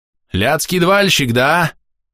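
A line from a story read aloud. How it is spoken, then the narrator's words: Warrior shouting. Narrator (Russian): закричал воин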